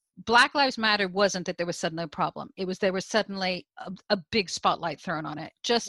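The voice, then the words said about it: American accent. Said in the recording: “you can hear from my accent. I'm originally from the US, I now live in the UK.”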